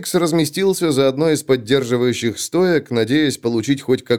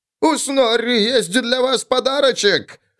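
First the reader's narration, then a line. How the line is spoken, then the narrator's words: Shouted. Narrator (Russian): выкрикнул Снорри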